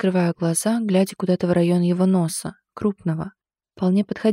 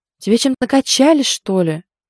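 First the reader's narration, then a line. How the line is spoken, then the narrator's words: Angry question. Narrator (Russian): зло спрашивает он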